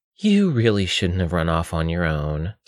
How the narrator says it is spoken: sighed Ella

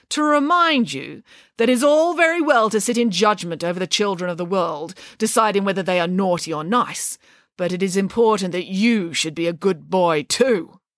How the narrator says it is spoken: said Nanny Piggins sternly

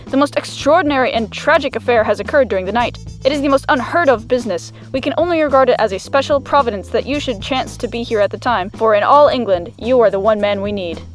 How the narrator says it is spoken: said the vicar in an agitated voice

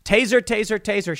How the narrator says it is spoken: yelled

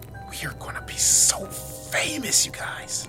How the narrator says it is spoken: Tyler whispered

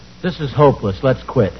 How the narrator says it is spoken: Calmly said

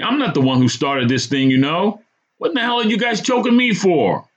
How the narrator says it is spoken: barked

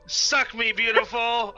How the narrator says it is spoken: I scream face down in the snow

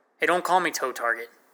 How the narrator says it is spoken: snapped at him

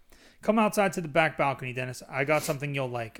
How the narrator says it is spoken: I said

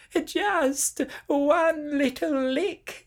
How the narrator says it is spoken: begged

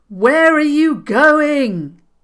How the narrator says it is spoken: he called out to Madame Myra, suddenly wishing he had listened to Kale a good while ago

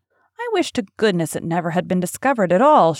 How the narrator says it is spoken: exclaimed

